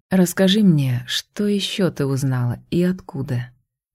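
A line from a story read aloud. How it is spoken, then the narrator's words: Quiet request. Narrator (Russian): Негромко попросил Идан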